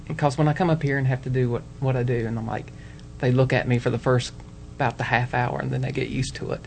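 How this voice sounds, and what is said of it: Strong Southern twang accent. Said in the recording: “I have such an accent ... your southern accent ... it is such a twang ... it is quite an accent ... It's hick. ... It is definitely hick.”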